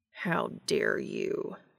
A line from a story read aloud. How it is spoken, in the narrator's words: Cass growled